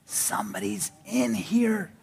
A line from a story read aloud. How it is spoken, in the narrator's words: Josh whispered